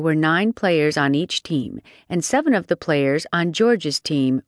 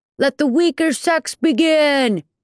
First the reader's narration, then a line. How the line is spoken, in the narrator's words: called out